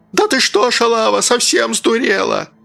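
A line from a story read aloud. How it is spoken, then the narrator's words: Shrill hysterical yelling. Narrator (Russian): Он орал визгливо, истерично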